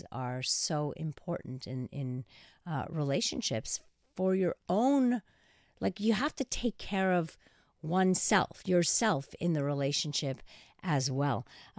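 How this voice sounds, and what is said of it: Hoarse, relaxed-sounding voice. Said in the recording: “You sound so relaxed ... I think that's just my hoarse voice”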